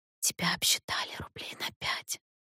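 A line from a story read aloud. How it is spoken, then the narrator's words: Whisper. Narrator (Russian): Катерина шепотом сказала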